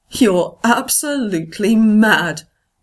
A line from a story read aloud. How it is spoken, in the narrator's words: John says, laughter threatening to bubble up